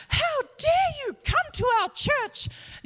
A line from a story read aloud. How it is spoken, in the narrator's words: this old lady who was one of the ladies at our town church, she just started yelling at him and said